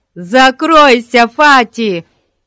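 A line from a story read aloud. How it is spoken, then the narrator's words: Children shouting in chorus. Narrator (Russian): хором закричали дети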